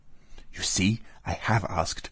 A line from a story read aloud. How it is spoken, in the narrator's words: whispered Natasha to her little brother and to Pierre